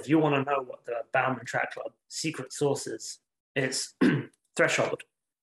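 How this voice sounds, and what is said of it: Strained, fading voice. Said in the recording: “my voice is starting to go”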